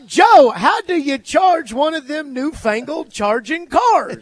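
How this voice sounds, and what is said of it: Put-on Southern accent. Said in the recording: “for you to give me a Southern accent ... for you, a Southerner who has a bit of a Southern accent at times, to give me a Southern accent”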